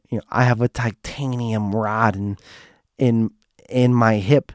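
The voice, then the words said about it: Poor imitation of a woman's voice. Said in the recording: “this is my impression of her. It's horrible, but it's the best I could do.”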